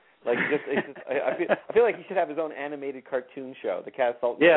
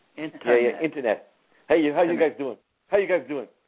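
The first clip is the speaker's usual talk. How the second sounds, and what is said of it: Imitated Staten Island accent. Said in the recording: “my impression of him... he's got that Staten Island accent”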